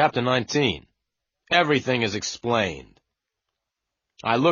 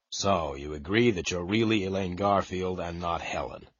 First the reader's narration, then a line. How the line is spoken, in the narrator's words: I said quietly